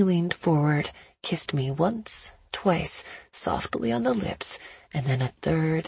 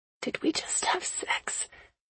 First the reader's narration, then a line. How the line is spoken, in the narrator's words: asked quietly